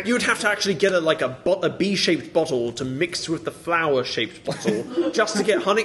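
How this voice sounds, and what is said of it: English accent, very enunciated. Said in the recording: “You were so enunciated when you said all that. ... family from England ... they topped off their accents. ... now that's topped off my accent.”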